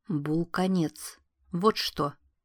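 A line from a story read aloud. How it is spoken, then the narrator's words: Plain. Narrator (Russian): ответила она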